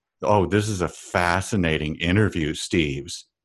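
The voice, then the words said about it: Sarcastic tone of voice. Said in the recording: “I can tell you're being sarcastic there.”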